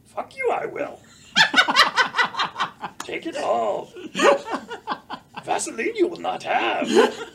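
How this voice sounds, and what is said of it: Yoda impression. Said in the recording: “Do a pretty good Yoda impersonation ... You know, Yoda in prison.”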